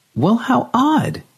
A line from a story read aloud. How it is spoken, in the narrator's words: she exclaimed